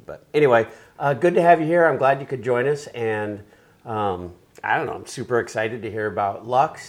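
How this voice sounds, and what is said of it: Hoarse voice. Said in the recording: “Pardon my voice ... I've been hoarse ever since”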